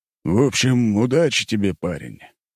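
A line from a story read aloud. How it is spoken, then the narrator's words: Heavy sigh. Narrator (Russian): князь тяжело вздохнул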